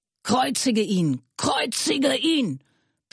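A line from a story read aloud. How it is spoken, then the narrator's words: Crowd screaming. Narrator (German): die Hohepriester und die Diener schrien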